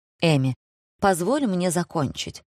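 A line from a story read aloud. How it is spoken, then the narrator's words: Sighing. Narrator (Russian): вздохнул Деннис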